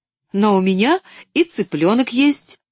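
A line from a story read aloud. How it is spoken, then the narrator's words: Cheerful exclamation. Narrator (Russian): весело воскликнула Поллианна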